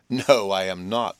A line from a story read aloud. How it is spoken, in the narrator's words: said Biddy, laughing